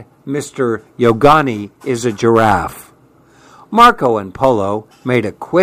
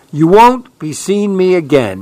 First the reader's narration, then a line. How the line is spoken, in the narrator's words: he cried